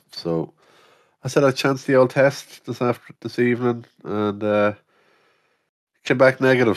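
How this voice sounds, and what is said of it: Weak, partly lost voice. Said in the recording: “my voice is still kind of gone, but a lot better than I was”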